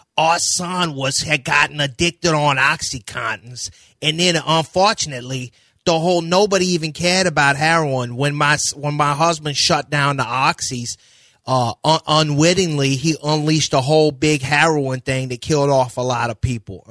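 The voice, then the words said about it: Imitated New Orleans Yat accent. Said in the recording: “you got that Chalmette accent, which is what I knew as Yats. Where Yat? That's a Yat accent. The Chalmette and his wife sound like this.”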